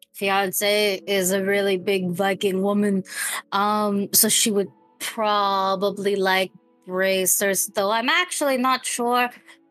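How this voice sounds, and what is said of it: Put-on character accent. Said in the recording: “I'm gonna stop talking in that accent so that way I can be out of character”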